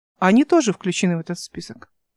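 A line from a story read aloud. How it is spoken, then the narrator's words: Calm. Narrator (Russian): спокойно сказал Михаил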